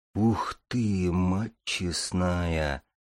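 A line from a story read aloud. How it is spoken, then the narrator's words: Whispered exclamation. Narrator (Russian): шепотом воскликнул Барята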